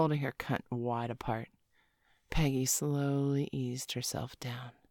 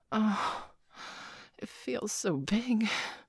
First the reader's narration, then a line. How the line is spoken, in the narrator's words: Peggy gasped